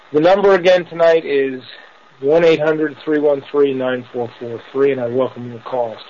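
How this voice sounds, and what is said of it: Tired, worn-out, dragging voice. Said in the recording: “I sound a little tired tonight ... my voice sounds like it's gone ... if I sound like I'm dragging, I am”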